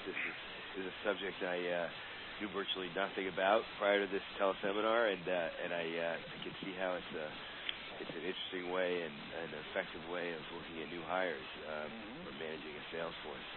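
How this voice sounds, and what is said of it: Hoarse voice. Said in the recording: “I apologize for my hoarse voice. So I'll try to be over my cold”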